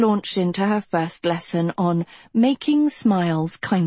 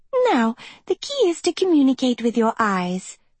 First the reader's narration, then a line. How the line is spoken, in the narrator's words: she chirped